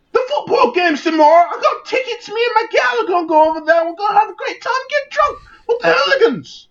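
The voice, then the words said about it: Terrible put-on British accent. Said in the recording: “This is a terrible accent. This is the worst British accent I've ever seen in my life.”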